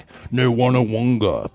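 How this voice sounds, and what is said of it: Imitates another person's voice. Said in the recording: “That's my impression of Kislyak.”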